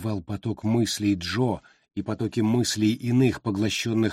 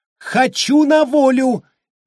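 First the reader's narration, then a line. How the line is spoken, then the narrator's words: Hysterical screaming. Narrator (Russian): истерично закричала мисс Райса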